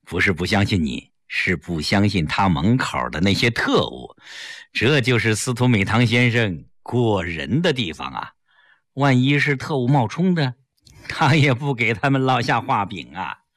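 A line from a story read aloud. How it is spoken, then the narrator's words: Smiling. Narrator (Chinese): 齐长鹏一笑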